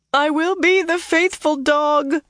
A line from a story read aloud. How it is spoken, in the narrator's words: Leandrin sobbed